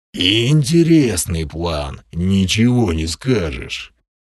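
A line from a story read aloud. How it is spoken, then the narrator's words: Grumble. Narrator (Russian): проворчал Крим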